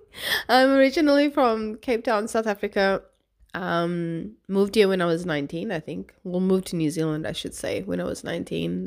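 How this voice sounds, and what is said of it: Mixed, scrambled accent. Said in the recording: “my accent's a bit scrambled”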